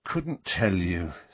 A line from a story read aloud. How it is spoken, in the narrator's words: said Harry wearily